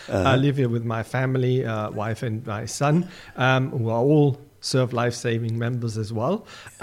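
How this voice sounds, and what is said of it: German accent. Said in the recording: “as you can hear in the accent, I'm actually born German”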